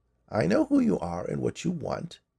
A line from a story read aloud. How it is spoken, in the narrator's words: she said in a creaky voice